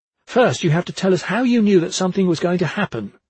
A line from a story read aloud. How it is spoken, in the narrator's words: she said sharply